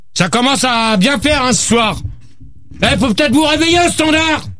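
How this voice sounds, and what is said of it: Shouting angrily. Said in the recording (French): “gueule pas tout de suite ... arrête de crier, toi!”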